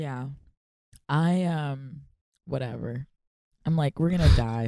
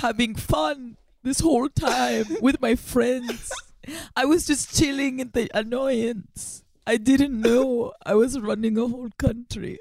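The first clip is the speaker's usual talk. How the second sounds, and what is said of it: Unidentifiable put-on accent. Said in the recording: “I don't know uh, what even accent is that. ... I was impressed that you ran with it.”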